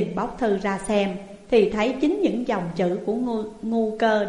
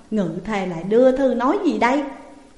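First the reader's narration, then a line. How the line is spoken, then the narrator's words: Loud laughing. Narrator (Vietnamese): Hạng Vương cười lớn nói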